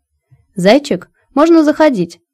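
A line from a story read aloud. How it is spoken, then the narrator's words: Cheerful call. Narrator (Russian): весело крикнула моя визажистка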